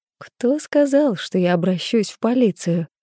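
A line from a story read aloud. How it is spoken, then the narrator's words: Laughing reply. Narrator (Russian): рассмеялась я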